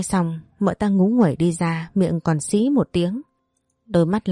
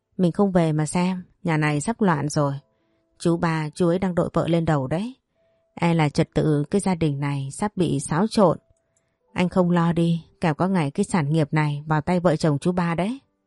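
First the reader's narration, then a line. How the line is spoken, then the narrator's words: Resentful, huffy speech. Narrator (Vietnamese): mợ cả hậm hực nói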